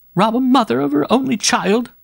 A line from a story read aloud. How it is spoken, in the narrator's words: said the mother, whimpering